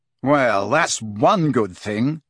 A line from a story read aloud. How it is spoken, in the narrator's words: he said savagely